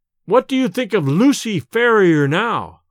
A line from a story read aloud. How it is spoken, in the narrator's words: I cried, shaking the key in his face